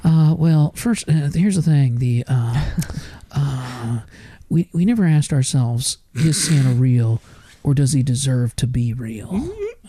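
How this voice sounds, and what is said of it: Jeff Goldblum impression. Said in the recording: “That's Jeff Goldblum. ... This is my Jeff Goldblum”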